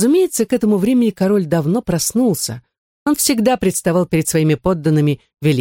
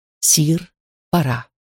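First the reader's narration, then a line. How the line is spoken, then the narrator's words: Whispered, chief valet. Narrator (Russian): Главный камердинер прошептал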